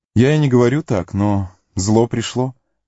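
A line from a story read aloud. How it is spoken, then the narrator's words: Sad. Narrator (Russian): печально сказал Леголас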